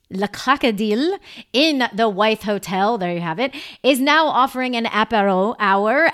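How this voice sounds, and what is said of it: Deliberately bad French accent. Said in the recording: “I'm coming out with my terrible French accent for everyone to make fun of me.”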